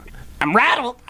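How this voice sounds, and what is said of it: Parrot voice. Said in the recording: “Give us a parrot voice. ... That's pretty good. ... That's good. I like that.”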